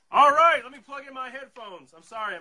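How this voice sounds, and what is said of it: Loud, yelling voice. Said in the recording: “I'm yelling.”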